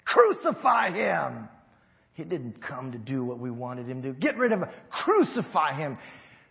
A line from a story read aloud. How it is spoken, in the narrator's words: yelling